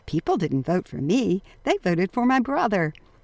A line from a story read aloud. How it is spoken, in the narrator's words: Mario laughingly said